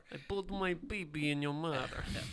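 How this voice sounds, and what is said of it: Put-on Serbian accent. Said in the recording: “But also do it in a Serbian accent.”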